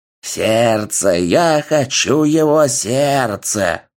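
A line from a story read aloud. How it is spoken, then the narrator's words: Very old woman hissing. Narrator (Russian): прошипела на английском выглядящая на все 100 лет бабушка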